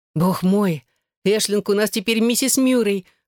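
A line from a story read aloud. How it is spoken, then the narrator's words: Exclamation. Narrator (Russian): воскликнула Ниам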